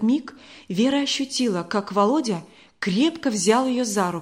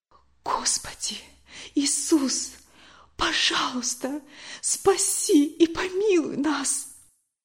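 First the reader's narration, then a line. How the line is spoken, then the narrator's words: Whispered prayer. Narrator (Russian): она прошептала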